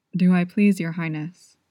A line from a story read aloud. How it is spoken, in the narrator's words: he asked